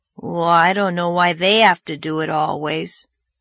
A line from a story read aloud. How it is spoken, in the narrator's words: grumbled Davy